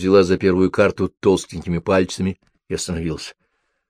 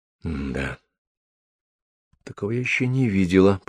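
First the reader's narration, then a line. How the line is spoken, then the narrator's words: Mutter. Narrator (Russian): пробормотала она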